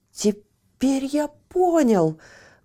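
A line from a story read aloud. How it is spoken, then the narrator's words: Exclaiming. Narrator (Russian): воскликнул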